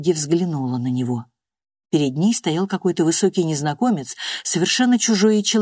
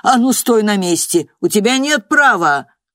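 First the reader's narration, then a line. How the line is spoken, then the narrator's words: Shouting. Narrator (Russian): крикнул директор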